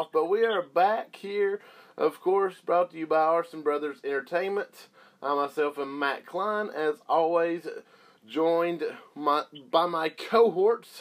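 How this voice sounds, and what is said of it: Slightly rough, under-the-weather voice. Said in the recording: “a bit under the weather for the last week, so my voice may sound still a little rough”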